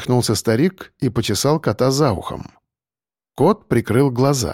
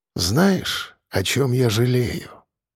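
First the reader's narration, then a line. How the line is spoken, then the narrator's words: Quiet question. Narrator (Russian): тихо спросил он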